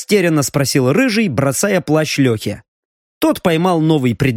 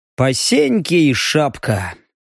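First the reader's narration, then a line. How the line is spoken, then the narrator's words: Exhausted sigh. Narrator (Russian): вздохнул Леха, ощущая себя соответственно одеянию, загнанной лошадью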